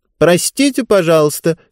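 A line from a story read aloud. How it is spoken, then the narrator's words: Loud. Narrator (Russian): сказала она громким голосом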